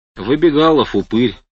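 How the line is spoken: Plain. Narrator (Russian): сказал Роман

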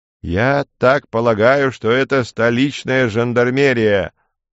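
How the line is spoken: Thunderous whisper. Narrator (Russian): громовым шепотом произнес Пандарей

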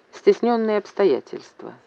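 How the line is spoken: Plain. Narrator (Russian): сказал Кетшев

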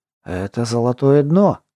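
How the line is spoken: Breathed out. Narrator (Russian): выдохнул Горд

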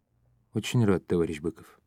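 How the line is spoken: Soft. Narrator (Russian): Ермаков мягко проговорил

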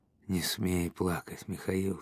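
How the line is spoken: Whisper. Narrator (Russian): шептал Юрковский

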